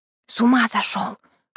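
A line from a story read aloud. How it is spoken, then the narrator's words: Indignant whisper. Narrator (Russian): шепотом возмутилась я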